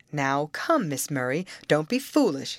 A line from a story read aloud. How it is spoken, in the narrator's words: said I, attempting a good-natured laugh